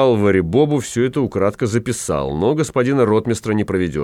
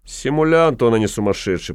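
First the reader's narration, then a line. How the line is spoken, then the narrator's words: Grumbled. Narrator (Russian): проворчал господин штаб-врач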